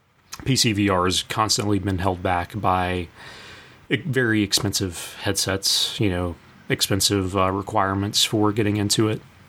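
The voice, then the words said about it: Hoarse, strained voice. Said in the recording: “I'm still losing my voice.”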